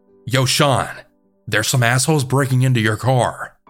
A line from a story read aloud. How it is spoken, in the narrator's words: I then yelled at my brother